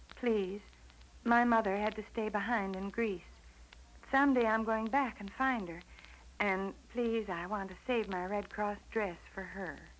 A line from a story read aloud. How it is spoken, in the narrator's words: timidly said